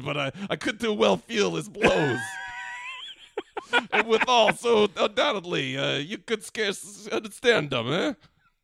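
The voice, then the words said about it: Put-on Brooklyn accent. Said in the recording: “I don't know why I'm doing a Brooklyn accent”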